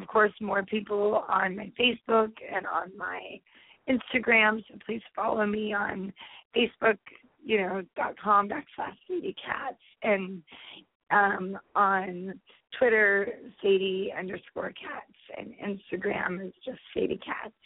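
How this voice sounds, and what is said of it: Scratchy voice. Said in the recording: “my voice won't be so scratchy”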